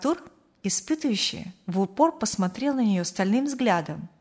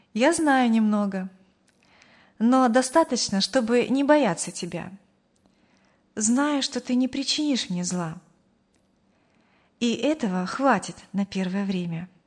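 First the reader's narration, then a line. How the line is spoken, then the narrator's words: Calm. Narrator (Russian): спокойно ответила девушка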